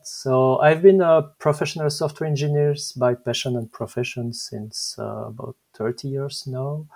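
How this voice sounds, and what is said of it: French-accented English. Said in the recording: “I'm Belgian. Maybe my French accent is showing”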